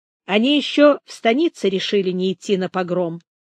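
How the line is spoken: Plain. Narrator (Russian): сказал Толстопят генералу

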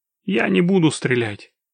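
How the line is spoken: Amused grunt. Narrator (Russian): Локис хмыкнул

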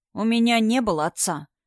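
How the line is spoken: Calm answer. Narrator (Russian): спокойно ответил Адам

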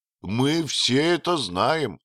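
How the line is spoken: Exclaimed. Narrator (Russian): воскликнул хозяин гостиницы

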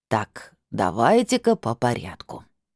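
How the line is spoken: Firm demanding old man. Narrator (Russian): непреклонным тоном потребовал дедок

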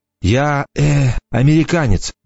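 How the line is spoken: Confused mumble. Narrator (Russian): промямлил я, не совсем понимая, что именно ее интересует

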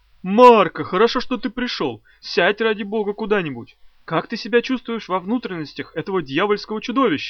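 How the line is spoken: Shouted. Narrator (Russian): Нира закричал на него

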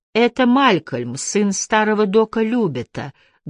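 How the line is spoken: Plain. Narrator (Russian): говорит кто-то

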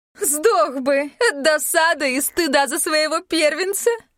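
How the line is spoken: Cutting remark then laughter. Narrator (Russian): припечатала королева и расхохоталась

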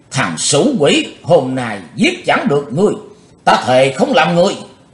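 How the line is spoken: Fierce roar, old man. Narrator (Vietnamese): hung tợn, cụ Như Trụ gầm vang

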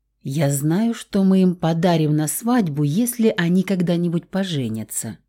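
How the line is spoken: Whispered. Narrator (Russian): шепнула я Раулю

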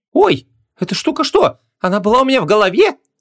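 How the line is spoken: Terrified shriek. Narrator (Russian): В ужасе взвизгнула принцесса

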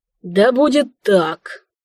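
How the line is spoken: Near-groan, king. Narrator (Russian): едва ли не простонал король

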